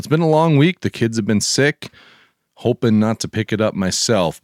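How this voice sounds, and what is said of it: Rough, hoarse voice from a cold. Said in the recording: “my voice sounds a little rough, losing my voice a little bit, dealing with a little bit of a cold”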